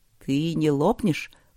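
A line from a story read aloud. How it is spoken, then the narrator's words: Undertone question. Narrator (Russian): вполголоса спросил лорд Макс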